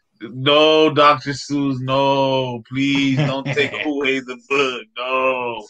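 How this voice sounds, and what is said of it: Sarcastic mock-pleading tone. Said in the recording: “I'm being sarcastic.”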